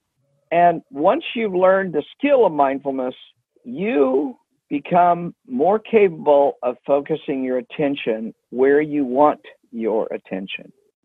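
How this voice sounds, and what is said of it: Very slow, calm speech. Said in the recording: “I'm going very slow right now... the change in my tone of voice.”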